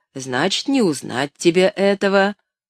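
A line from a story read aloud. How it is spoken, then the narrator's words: Smiling old man's reply. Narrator (Russian): улыбаясь, ответил старый Том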